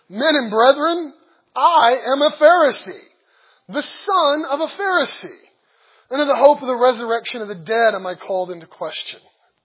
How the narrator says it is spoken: he cried out in the council

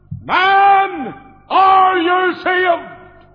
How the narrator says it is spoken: he cried out

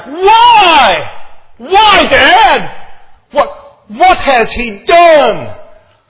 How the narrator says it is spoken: Jonathan roars back

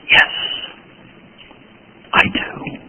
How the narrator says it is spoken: in a childlike whisper, Luther replied to his friend

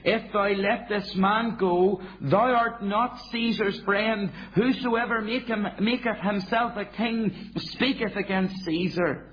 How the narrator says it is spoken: the Jews cried out, saying

